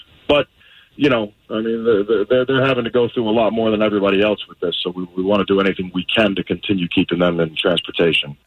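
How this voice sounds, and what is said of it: Fake New York accent. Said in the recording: “this fake New York accent”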